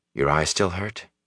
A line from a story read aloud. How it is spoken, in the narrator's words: Rand asked